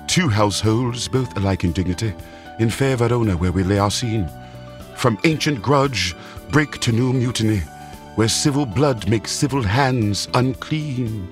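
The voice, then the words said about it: Put-on English accent. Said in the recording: “it also taught me how to speak with this cool English accent”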